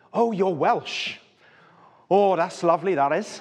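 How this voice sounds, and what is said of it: Subtle mimicked Welsh accent. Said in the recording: “a certain number of accents that accidentally and totally unintentionally, if you're in our house and talking with your accent, I will sort of mimic back to you. I think it's very subtle and slight, but my kids think it's enormous ... If you come with a Welsh accent”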